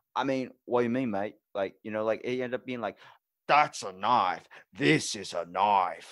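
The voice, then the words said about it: Put-on thick Australian accent. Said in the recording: “especially with Australian people ... hold your own accent while hearing theirs so strong, because it's so thick. It's cutting.”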